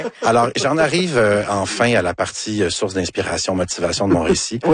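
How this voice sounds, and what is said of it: Usual voice. Nothing is said of it.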